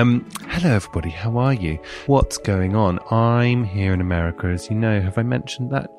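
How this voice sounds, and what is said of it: Usual voice. Nothing is said of it.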